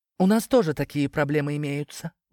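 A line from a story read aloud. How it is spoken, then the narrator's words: Cat sighing. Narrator (Russian): вздохнула кошка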